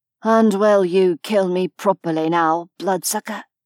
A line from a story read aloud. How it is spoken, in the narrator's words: He asked hoarsely